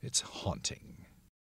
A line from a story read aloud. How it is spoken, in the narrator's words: mumbles under his breath